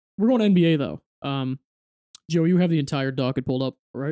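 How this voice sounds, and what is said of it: Usual voice. Nothing is said of it.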